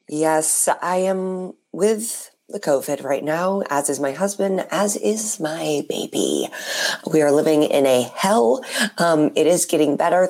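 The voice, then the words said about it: Unusually deep, lowered voice. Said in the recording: “whose voice is still the same ... I, for one, am jealous of your voice ... make your voice deeper ... Turns out all that needed to happen was for you to get COVID and then your voice is deep”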